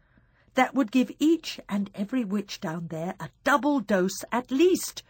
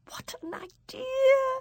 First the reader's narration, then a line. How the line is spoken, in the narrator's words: she cried